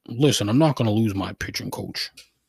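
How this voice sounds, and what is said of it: Imitates another person's voice. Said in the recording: “worst Terry Francona impression of all time ... It was terrible. I'm not good at impressions.”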